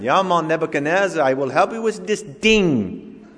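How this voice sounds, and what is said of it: Phony Jamaican accent, Miss Cleo impression. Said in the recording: “He called Miss Cleo with that phony Jamaican accent.”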